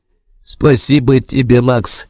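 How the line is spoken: Sarcastic. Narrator (Russian): язвительно говорит Генриетта

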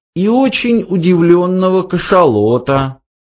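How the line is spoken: Uncertain. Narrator (Russian): неуверенно проговорил Форд

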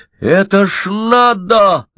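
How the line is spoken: Shouted. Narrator (Russian): закричал Удалов

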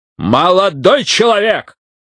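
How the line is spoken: Sharp exhaled words. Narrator (Russian): Брайтман резко выдохнул

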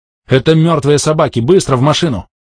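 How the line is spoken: Shouted. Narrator (Russian): Последние слова я крикнул

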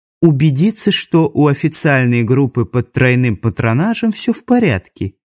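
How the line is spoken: Unctuous sugary voice. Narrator (Russian): елейным голосом произнес фон Кисель

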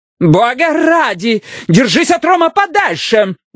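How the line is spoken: Yelling. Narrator (Russian): заорала Лукреция

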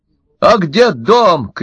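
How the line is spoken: Shouted. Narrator (Russian): крикнул Семенский

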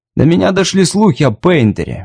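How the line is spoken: Soft. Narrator (Russian): мягко сказал Клэм

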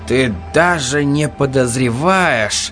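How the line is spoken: Suddenly weary voice. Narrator (Russian): сказал Ральфи неожиданно усталым голосом

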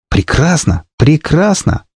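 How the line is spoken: Joyful. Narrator (Russian): радостно сказал

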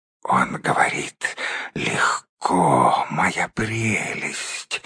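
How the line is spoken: Spiteful hiss. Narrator (Russian): злобно прошипел Голлум

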